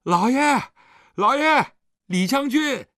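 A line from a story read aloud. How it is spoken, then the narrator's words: Excited shouting. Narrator (Chinese): 狄春已经兴奋地叫着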